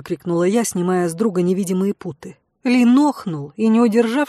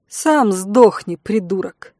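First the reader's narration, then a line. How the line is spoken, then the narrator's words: Snapping retort. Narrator (Russian): огрызнулась я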